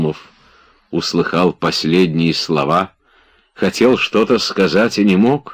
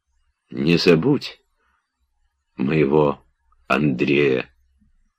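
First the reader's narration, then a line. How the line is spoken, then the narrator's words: Faint, fading dying voice. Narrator (Russian): были последние слова Обломова, сказанные угасшим голосом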